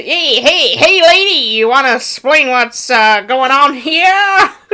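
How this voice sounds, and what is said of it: Imitates a cartoon character's voice. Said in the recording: “That's not an inaccurate impression. That is 100% accurate. ... I think that's a pretty good impression of what he does.”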